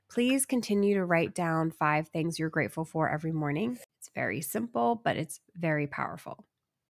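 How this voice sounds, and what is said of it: Congested, raspy voice. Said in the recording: “I have a cold, I'm dealing with congestion and a raspy voice.”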